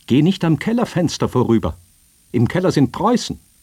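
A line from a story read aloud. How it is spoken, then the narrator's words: Called out. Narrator (German): Die Försterin rief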